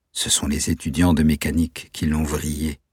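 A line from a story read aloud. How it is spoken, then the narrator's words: Low-voiced explanation. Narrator (French): expliqua-t-il à voix basse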